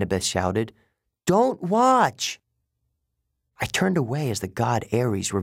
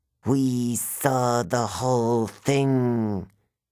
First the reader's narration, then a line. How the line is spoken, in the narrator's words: she hissed